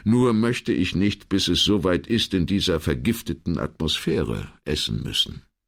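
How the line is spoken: Calm reply. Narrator (German): entgegnete Brunetti ruhig

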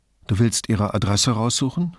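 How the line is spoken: Plain question. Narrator (German): fragte Brunetti

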